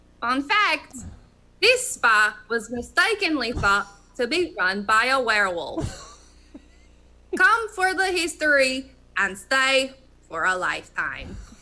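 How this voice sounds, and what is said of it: Put-on Eastern European accent. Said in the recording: “my new favorite accent of all time ... It's a wonderful Romanian. ... It's my Eastern European.”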